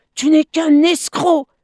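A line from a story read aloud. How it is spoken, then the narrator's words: Furious shout. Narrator (French): s'écria Bêta hors de lui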